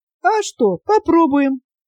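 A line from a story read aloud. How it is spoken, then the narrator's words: Cheerful mock complaint. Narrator (Russian): весело пожаловалась ему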